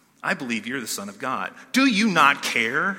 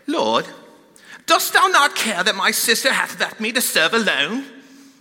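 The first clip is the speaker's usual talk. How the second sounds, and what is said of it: Put-on British accent, old-fashioned. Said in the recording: “I'm going to try to do this with a little British accent ... That's horrible, right?”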